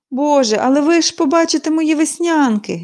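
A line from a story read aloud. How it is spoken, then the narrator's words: Sighing. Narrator (Ukrainian): зітхнула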